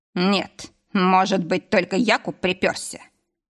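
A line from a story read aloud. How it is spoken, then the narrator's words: Snort. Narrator (Russian): хмыкнул Игнат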